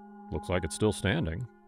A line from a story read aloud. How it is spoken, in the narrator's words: Jason muttered